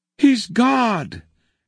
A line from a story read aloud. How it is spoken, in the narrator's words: cried all the creatures again